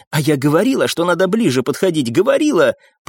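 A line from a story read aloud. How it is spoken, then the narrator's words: Hissing, working herself up. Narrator (Russian): продолжила шипеть и накручивать себе рыжеволосая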